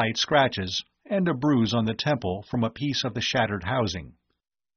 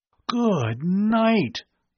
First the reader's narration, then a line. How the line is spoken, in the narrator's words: Bud gasped in a stunned voice